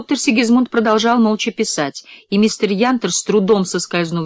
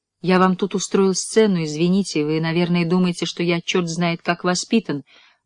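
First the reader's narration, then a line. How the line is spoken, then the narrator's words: Dejected mumble. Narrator (Russian): пробормотал мистер Янтер в полном унынии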